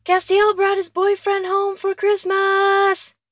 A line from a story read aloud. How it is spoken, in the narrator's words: he bellows